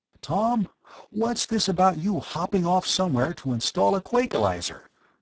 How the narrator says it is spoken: asked anxiously

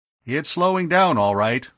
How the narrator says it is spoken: Arv called out

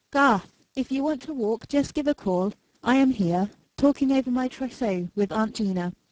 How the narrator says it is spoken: Then raising her voice

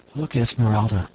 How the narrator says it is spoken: whispered

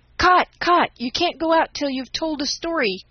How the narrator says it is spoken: cried the boys

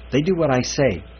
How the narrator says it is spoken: Manning snapped

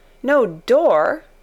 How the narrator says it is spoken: cried Mary

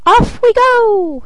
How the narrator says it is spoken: cried he

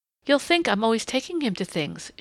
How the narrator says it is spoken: she said brightly

